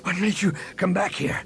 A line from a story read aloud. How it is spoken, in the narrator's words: Han asked between breaths